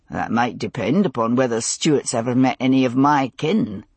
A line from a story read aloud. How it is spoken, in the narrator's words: Jamie said dryly